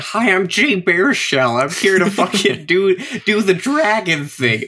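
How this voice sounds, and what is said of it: Imitates another person's voice. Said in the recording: “That's my worst impression I've ever done.”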